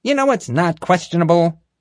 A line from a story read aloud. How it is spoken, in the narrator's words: Marge snapped